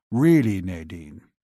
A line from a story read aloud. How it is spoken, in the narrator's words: her father grumbled